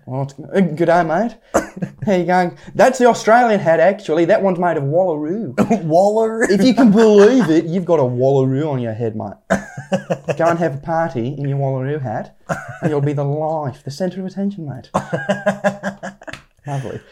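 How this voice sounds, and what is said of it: Good put-on Australian accent. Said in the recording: “do your Australian accent ... Oh, that is a good accent. ... That is a good accent.”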